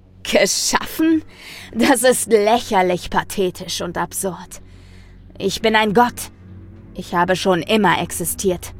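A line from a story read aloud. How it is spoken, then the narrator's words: Thundering voice. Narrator (German): donnerte ich dem Wesen entgegen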